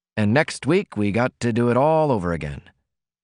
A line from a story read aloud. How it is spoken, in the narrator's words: he said sadly